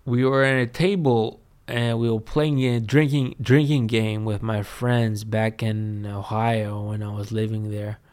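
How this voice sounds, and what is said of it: Greek accent in English. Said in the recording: “look at my accent. And my accent is cool... my Greek friends, that they're sounding like me”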